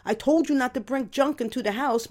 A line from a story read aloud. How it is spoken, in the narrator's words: yelled back